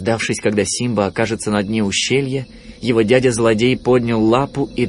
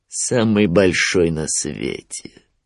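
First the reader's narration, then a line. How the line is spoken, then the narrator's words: Grim smirk. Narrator (Russian): мрачно ухмыльнулся Шрам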